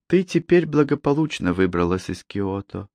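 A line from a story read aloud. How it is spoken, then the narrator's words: Soft. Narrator (Russian): мягко произнесла она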